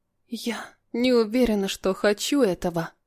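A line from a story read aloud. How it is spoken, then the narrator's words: Close whisper. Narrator (Russian): прошептала ему в губы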